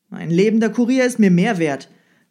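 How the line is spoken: Sharp retort. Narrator (German): versetzte der Zar scharf

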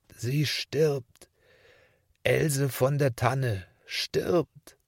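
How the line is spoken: Groaning pastor. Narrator (German): stöhnte der Pfarrherr

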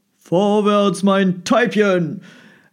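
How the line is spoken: Young man calling to horse. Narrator (German): rief der junge Mann seinem Pferd zu

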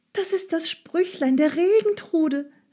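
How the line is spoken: Called out. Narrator (German): rief Frau Stine

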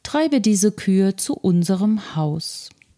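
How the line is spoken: Calm. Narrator (German): sagte er ruhig

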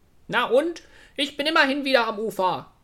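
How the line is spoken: Robin calling contemptuously. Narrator (German): rief das Rotkehlchen verächtlich

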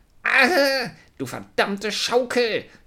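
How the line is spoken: Angry shout. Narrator (German): schrie wütend

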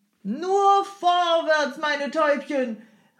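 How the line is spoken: Calling out continually. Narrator (German): rief der Jemschik unentwegt

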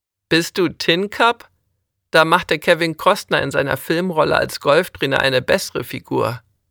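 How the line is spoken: Laughing. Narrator (German): lachte Manfred

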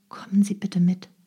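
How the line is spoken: Quiet request. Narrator (German): bat leise

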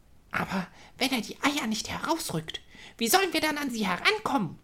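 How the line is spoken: Excited squeaking mouse. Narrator (German): piepste eine aufgeregte Ostermaus

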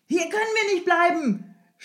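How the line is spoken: Shouting. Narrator (German): schrie Strogoff dem Jemschik zu

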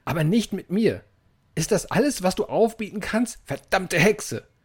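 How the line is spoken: Screaming, voice cracking. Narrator (German): schrie er mit überschnappender Stimme dem Raben nach

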